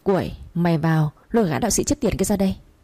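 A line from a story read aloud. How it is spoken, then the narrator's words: Loud shout. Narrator (Vietnamese): ông Huấn quát lớn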